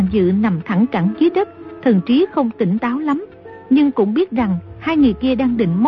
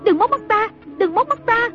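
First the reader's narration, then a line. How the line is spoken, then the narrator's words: Panicked shriek. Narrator (Vietnamese): Trung Linh hốt hoảng kêu rú lên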